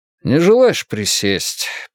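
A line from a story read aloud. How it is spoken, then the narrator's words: Sad offer. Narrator (Russian): печальным тоном предложил полицейский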